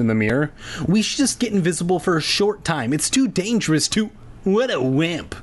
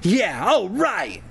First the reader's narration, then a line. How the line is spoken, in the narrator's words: Zach exclaimed